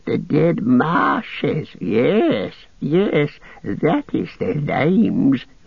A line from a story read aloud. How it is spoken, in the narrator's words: he cackled